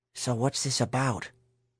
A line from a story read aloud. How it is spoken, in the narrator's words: Herschel whispered to Mary